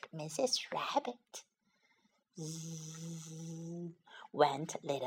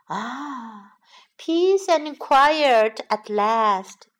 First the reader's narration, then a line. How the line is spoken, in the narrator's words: sighed Mrs